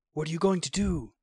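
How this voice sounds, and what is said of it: Hoarse whisper. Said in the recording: “he whispered hoarsely.”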